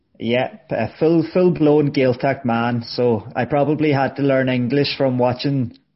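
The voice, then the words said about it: Irish Donegal accent. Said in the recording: “You've already told us with your accent. ... You're from Donegal.”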